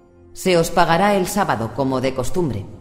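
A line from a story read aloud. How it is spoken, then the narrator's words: Contemptuous reply. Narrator (Spanish): respondió Nate con tono despreciativo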